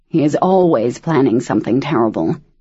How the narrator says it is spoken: Daniel muttered

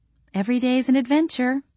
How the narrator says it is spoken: Andrea said dryly

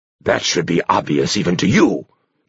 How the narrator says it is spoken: Dompalo said sharply

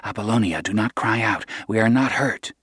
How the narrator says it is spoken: Kino's voice said quietly

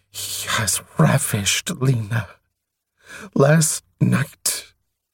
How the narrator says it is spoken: Straightening fiercely, he hissed at Atyaran

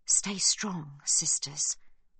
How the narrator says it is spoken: mumbles Sibby, but her thoughts are scattered

